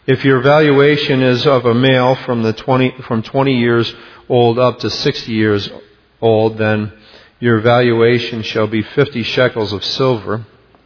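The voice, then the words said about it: Slightly raspy voice. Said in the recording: “I'm a little raspy tonight”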